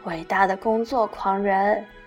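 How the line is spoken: Sighing over phone. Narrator (Chinese): 季轩在电话那头叹气

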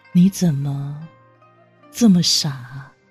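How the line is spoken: Helpless sigh. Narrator (Chinese): 无奈叹息道

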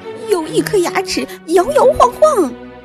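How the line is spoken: Scream. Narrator (Chinese): 女仆尖叫

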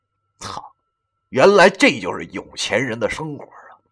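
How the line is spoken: Inner sigh of wonder. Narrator (Chinese): 心中还不免感叹道

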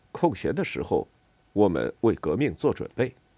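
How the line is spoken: Serious. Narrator (Chinese): 他很严肃的说了一句

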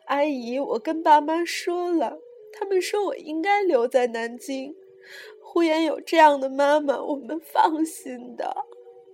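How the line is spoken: Sobbing loudly. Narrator (Chinese): 她大哭说

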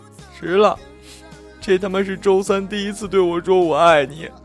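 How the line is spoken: Tearful voice. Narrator (Chinese): 她带着哭腔说

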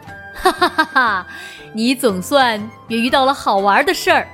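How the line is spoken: Father bursting into laughter. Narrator (Chinese): 爸爸突然大笑说

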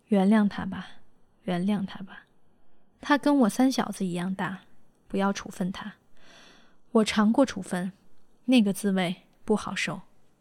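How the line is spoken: Old man sighing. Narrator (Chinese): 老校长长叹一声

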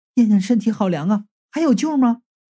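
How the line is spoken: Trembling voice, asking. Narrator (Chinese): 冯丽颤声着问道

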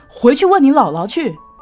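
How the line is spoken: Loud answer. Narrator (Chinese): 他……大声的回答说

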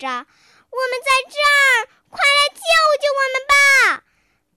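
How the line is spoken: Desperate loud cries. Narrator (Chinese): 他们挣扎着，高声呼救着

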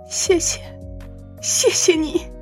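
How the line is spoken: Emotional crying. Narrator (Chinese): 琳达一边激动的哭泣，一边说道

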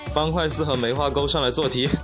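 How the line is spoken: Calm flat teacher. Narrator (Chinese): 初中老师淡淡的说道

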